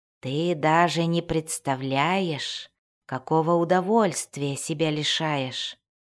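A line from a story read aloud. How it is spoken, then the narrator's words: Drawling. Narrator (Russian): протянул он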